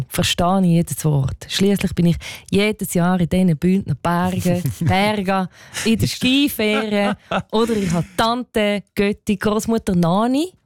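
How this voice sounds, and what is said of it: Attempted Graubünden Swiss German dialect. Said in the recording (German): “Ist das dein Versuch, Bündner Dialekt nachzumachen? ... nachäffen”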